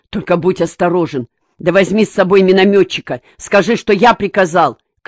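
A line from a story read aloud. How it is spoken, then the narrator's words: Calling out after someone. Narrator (Russian): крикнул ему вслед Черняков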